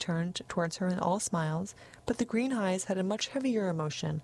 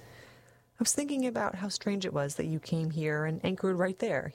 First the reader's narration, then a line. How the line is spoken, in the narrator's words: he said